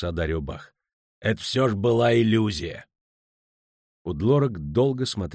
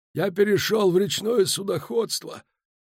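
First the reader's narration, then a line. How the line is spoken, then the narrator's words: Hoarse rasp. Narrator (Russian): прохрипел он наконец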